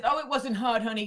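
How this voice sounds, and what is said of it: Imitates another person's voice. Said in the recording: “She doesn't talk like that, but that's my impression.”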